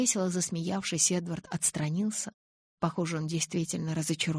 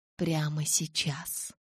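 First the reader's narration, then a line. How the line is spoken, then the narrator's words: Whisper. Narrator (Russian): прошептал он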